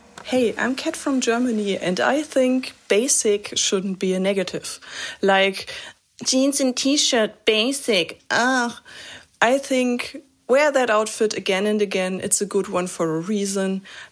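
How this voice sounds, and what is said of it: German accent. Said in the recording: “Hope the German accent isn't too bad.”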